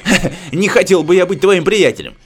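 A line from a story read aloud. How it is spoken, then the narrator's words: Nervous laughing slug. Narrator (Russian): Нервно засмеялся какой-то слизень, как бы в оправдание добавил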